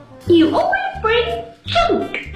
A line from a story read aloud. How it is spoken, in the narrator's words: screamed Aunt Nancy